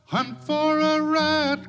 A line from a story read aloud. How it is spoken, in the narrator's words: cried Billy Barlow